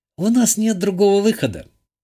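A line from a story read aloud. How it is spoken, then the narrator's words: Sad. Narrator (Russian): печально произнесла та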